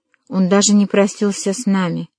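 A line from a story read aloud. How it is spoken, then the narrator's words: Sad, quiet. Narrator (Russian): грустно промолвила Каролина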